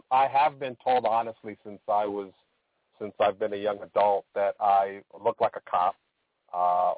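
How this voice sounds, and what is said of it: Loud New York style accent. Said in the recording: “they say I have a, a New York style accent ... very loud”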